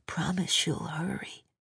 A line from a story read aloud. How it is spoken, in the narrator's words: Carter's whispered